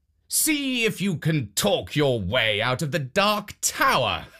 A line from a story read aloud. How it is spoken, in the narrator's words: the king called out